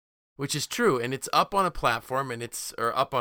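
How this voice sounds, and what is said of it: Usual voice. Nothing is said of it.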